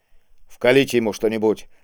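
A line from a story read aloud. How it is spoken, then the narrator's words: Irritated command. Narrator (Russian): раздраженно приказал Кийск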